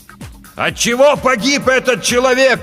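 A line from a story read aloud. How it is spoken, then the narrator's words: Shouted. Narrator (Russian): прокричал капитан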